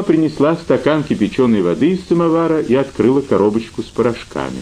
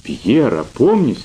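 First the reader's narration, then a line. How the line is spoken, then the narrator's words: Mother's exclamation. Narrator (Russian): воскликнула мама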